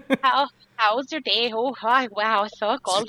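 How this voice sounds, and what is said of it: Exaggerated Minnesota-style accent. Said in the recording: “Go like to Minnesota or watch Fargo. That's the most ridiculous accent ever ... that just sounds like you. That sounds like Canadian you.”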